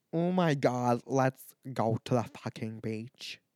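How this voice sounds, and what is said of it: Put-on Irish accent. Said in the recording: “when I use my Irish accent”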